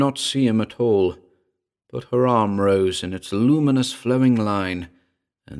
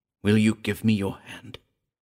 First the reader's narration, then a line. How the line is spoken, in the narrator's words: Henri Patou whispered